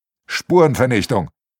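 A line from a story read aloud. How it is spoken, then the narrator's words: Plain. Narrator (German): antwortet der Arno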